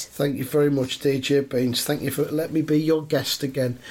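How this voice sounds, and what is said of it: Voice affected by a cold. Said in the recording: “I've had a bit of a cold over the last few days, so my voice is a little bit...”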